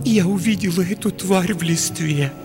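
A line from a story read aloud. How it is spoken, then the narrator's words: Utterly miserable voice. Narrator (Russian): произнесла она совершенно несчастным голосом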